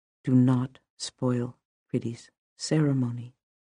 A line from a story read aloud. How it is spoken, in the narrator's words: I said to her in a low voice